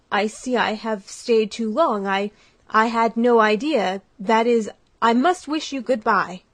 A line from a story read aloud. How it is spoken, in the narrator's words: stammered Brantain